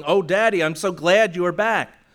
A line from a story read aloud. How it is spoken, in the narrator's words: a young lady exclaiming